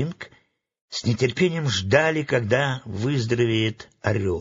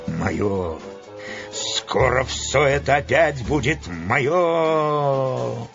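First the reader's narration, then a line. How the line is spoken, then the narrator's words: Quiet secretive mutter. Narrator (Russian): Тихо бормотал он, чтобы не расслышал Карфакс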